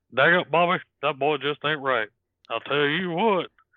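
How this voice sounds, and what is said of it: Hank Hill impression. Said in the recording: “the Hank Hill impression ... his Hank Hill impression”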